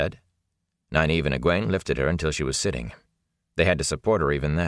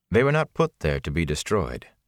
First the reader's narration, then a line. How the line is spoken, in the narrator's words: the Aes Sedai said curtly